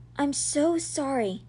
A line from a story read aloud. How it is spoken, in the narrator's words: said in a quiet voice